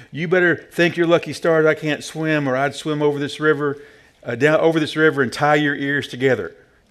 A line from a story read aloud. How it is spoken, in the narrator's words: would shout